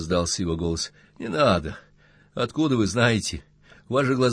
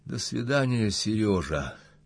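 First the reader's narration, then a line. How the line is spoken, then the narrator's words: Quiet, tearful. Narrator (Russian): даря слезами, тихо сказала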